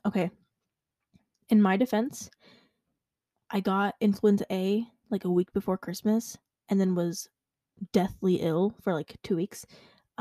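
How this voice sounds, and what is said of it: Sick-sounding voice. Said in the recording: “If you can't tell by my voice, still not well.”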